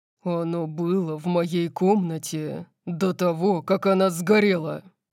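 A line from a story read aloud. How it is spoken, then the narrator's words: Growling. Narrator (Russian): прорычал Дариус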